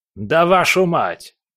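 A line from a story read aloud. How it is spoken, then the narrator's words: Yelling. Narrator (Russian): заорал Легба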